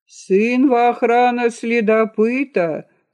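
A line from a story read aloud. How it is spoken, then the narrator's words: Shouting. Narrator (Russian): закричала она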